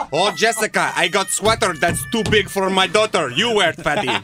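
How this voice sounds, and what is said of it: Imitated thick Hungarian accent. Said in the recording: “she's from Hungary. And so she had a very thick accent.”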